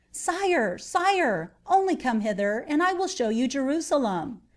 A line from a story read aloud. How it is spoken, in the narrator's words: one of the King of England's knights cried out